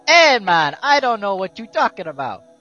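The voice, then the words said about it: Put-on Jamaican accent. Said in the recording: “How'd you go from a pseudo Japanese accent to a Jamaican one?”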